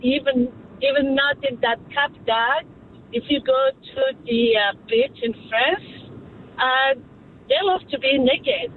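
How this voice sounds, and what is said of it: French accent. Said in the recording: “I am hearing an accent, but that's France, right?”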